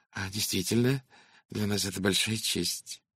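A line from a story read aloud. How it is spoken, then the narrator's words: Muttered. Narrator (Russian): пробормотал француз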